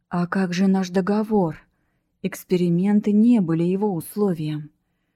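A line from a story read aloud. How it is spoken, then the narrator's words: Hissed. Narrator (Russian): прошипел Ислаш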